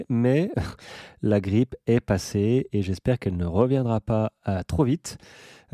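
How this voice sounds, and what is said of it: Nasal, congested voice. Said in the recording (French): “veuillez pardonner encore cet accent, je, parle du nez encore parce que je suis encore euh, pris du nez”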